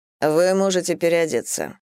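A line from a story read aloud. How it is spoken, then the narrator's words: Plain. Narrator (Russian): сказал мне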